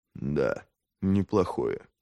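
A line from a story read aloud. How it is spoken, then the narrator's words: Muttered. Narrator (Russian): пробормотал Логин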